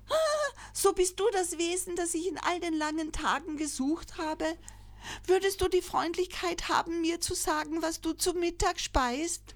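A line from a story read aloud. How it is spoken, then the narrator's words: Joyful call. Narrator (German): Es rief freudig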